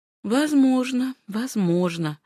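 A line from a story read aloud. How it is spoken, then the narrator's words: Doubtful voice. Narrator (Russian): с сомнением в голосе сказала Фанни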